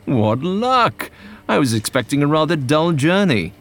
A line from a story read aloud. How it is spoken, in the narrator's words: He exclaimed